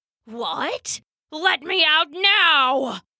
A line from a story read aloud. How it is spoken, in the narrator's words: roared the wolf